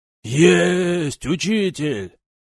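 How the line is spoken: Loud. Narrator (Russian): Ответил громко кто-то из толпы

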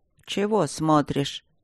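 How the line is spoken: Grumbling. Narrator (Russian): проворчала настоятельница

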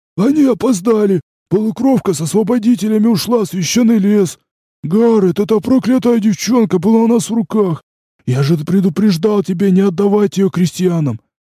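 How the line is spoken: Wheezing dwarf. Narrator (Russian): просипел карлик с сизым носом

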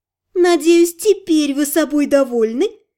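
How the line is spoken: Woman laughing. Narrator (Russian): засмеялась красавица

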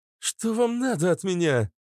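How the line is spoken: Sudden cry. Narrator (Russian): скрикнула она

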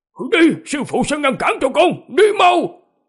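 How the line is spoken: Desperate old man shouting. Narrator (Vietnamese): lão nhân lộ ra vẻ tuyệt vọng, cắn răng quát lên

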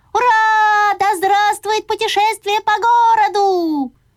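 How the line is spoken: Joyful full-throated yell. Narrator (Russian): очень обрадовался и завопил во все горло

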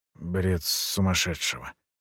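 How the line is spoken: Muttered. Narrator (Russian): пробормотал он

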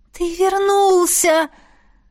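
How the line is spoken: Silent inner exclamation. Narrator (Russian): мысленно воскликнула

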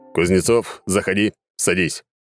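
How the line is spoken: Stargazer's commanding voice. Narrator (Russian): командным голосом сказал звездочёт

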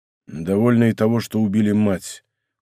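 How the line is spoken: Muffled, hollow answer. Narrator (Russian): глухо отвечал Атос

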